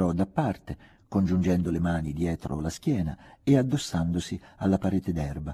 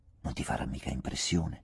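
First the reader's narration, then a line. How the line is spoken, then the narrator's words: Hushed question. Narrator (Italian): chiese, sempre sottovoce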